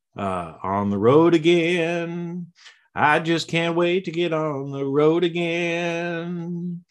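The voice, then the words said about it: Sings imitating another person's voice. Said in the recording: “my little Willie Nelson impersonation”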